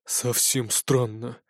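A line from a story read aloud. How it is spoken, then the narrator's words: Grumbling under breath. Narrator (Russian): буркнул себе под нос Нардис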